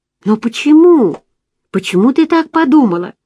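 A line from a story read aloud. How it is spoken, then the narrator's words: Suddenly calm, uncertain question. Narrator (Russian): внезапно успокоившись, он неуверенно спросил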